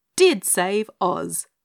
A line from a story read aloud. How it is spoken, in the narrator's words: finished the little wizard, bounding triumphantly to his feet and restored to instant cheerfulness by Dorothy's generous statement